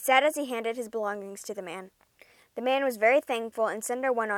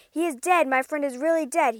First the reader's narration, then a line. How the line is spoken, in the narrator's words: he yelled